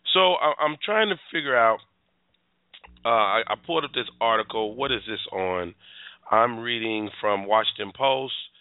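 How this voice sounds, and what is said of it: Hoarse, strained voice. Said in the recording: “my voice is shot today”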